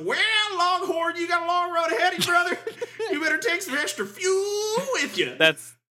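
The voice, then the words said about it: CB radio trucker voice. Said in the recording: “sweet CB radio voice”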